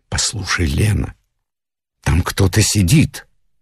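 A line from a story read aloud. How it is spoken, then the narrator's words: Frightened whisper. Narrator (Russian): я испуганно зашептал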